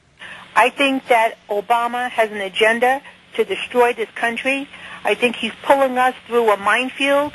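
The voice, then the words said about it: Brooklyn accent. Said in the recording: “I'm from Brooklyn. I have a terrible accent.”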